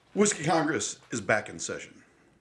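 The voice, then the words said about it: Dramatic announcer-style delivery. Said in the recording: “I don't know why I said it so dramatically”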